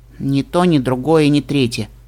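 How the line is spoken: Sighing mare. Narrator (Russian): вздохнула кобылка

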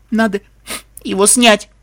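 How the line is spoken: Speaking through sobs. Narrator (Russian): сквозь рыдание проговорила Лира

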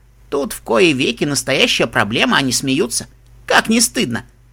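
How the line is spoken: Giggling. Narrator (Russian): Нед хихикнул

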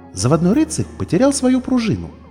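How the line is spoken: Joyful announcement. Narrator (Russian): радостно объявила она

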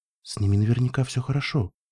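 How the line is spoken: Quiet. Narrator (Russian): тихо проговорил Спун

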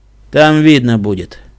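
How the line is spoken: Sighing. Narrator (Russian): вздохнул капитан

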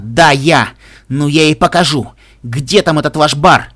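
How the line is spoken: Shouting in cracked voice. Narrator (Russian): Скуттл крикнула надломленным голосом

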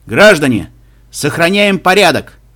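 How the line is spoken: Loud megaphone-like command. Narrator (Russian): Громко, как будто через мегафон, а может, у него и был встроенный мегафон, глава рейнджеров пытался командовать толпой

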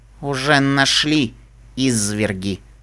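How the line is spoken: Grumbling. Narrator (Russian): проворчал Лангоста

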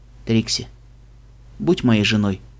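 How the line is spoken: Quiet speech. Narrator (Russian): тихо проговорил человек

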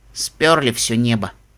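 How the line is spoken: Grumbled mutter. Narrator (Russian): буркнула голубая пегаска

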